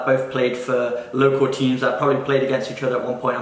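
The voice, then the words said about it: Nottinghamshire accent with American twang. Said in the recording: “I could detect that Nottinghamshire accent. So you might have been in the States a bit longer than me, so you got a bit of an American twang ... mine's all over the place because I lived in Australia for a bit as well”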